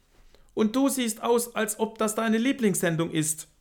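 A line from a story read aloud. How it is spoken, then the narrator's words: Defiant trembling reply. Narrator (German): gab Maria trotzig mit zitternder Stimme zurück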